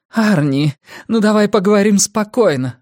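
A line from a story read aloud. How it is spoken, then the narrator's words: Pleading. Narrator (Russian): взмолилась она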